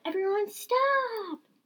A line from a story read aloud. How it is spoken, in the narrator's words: He yelled